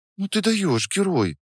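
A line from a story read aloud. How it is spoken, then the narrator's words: Soft, genuinely warm. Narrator (Russian): сказала она мягко, и в ее голосе послышалась настоящая теплота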